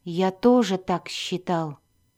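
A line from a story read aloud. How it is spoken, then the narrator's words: Mutter. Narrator (Russian): пробормотал Дзирт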